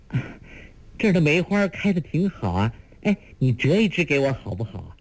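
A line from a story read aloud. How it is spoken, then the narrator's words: Lively laughing chatter. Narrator (Chinese): 一个秀美绝伦的少女，又听她笑语如珠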